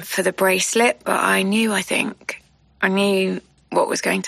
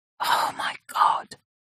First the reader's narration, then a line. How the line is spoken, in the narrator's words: she whispers again